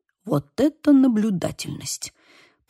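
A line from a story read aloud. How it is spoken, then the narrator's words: Muttered. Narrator (Russian): пробормотал Лука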